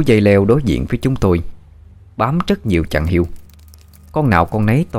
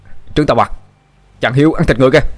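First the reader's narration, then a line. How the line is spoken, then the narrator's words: Shouting. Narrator (Vietnamese): Một tên thần tài ... mà hét lên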